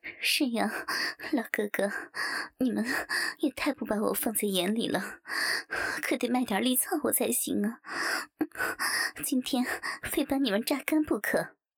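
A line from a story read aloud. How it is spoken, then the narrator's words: Coy, breathless panting. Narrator (Chinese): 王翠花也娇喘道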